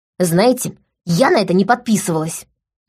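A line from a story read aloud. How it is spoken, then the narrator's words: Sharp snap. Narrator (Russian): рявкнула Лика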